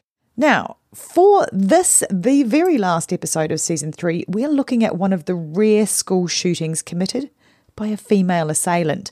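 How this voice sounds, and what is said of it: Unwell-sounding voice. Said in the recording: “I was actually coming down with my first and touch wood only dose of COVID. So you'll hear my voice might be a little bit, well, as my kids would say, even more annoying than usual.”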